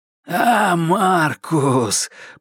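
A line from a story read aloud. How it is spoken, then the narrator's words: Hoarse wheeze. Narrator (Russian): прохрипел голос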